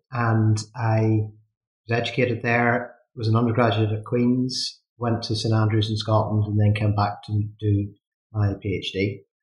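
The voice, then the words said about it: Northern Irish accent. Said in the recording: “as you can probably tell from my accent, I'm from Northern Ireland, from a place called Coleraine”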